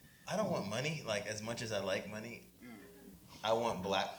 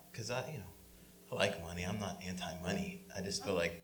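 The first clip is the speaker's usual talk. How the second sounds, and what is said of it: Voice shifts to sultry, sensual tone. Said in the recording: “Why did your voice change? ... real sensual ... like Midnight Storm over here talking about money”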